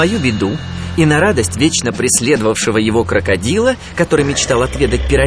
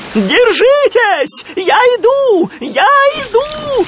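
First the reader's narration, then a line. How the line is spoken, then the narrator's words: Shouting. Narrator (Russian): закричал Сми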